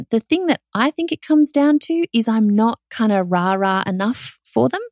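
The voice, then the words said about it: Australian accent. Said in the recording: “it's hard to understand my accent.”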